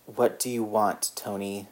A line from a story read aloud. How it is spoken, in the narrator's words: Steve rasped